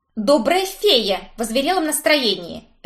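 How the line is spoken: Barked. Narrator (Russian): рявкнула я

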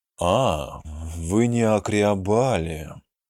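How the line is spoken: Drawling. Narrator (Russian): протянул Танзен

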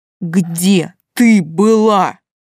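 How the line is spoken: Restrained growl through teeth. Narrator (Russian): прорычал, сжимая зубы после каждого слова, словно сдерживал рвущуюся наружу ругань

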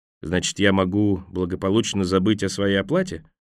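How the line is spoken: Quiet question. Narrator (Russian): Джани негромко спросил

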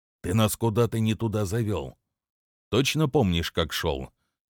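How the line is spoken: Hushed question. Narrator (Russian): Тихо спросил Дэвис, словно не хотел нарушать окружающую нас тишину

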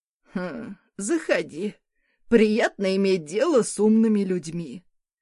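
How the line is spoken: Snorted. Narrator (Russian): хмыкнул он

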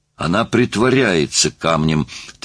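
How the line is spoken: Insistent repetition. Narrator (Russian): твердил труп

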